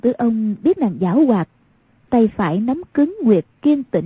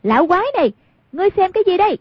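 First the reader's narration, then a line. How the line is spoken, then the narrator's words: Loud cry. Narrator (Vietnamese): Hoàng Dung lớn tiếng kêu lên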